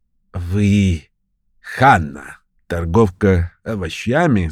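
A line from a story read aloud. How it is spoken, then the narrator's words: Unpleasant hoarse old woman. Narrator (Russian): спросила старуха неприятным хриплым голосом, беспрестанно тряся головой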